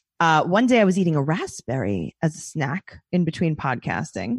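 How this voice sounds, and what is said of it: New York accent. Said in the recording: “your accent ... the New York accent”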